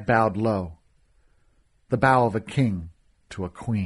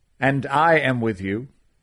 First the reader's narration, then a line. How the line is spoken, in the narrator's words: Araf said